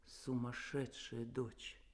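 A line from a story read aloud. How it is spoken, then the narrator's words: Quiet. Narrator (Russian): Он тихо сказал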